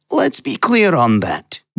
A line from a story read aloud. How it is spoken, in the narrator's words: Nasheed snarled